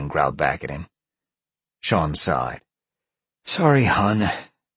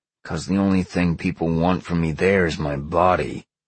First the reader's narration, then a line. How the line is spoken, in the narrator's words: Sean growled